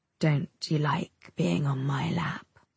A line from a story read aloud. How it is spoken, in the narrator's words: he asks me, his tone dropping and his voice becoming even more seductive